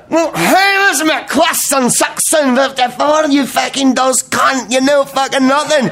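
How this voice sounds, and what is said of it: Put-on Scottish heckler accent. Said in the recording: “you would hear from an earlier balloonist in a Scottish accent in that crowd”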